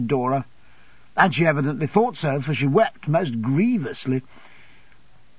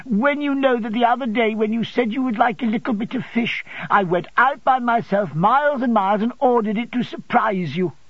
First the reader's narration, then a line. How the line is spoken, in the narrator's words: sobbed Dora